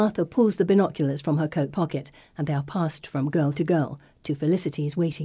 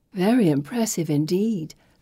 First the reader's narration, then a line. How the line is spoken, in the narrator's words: Felicity purrs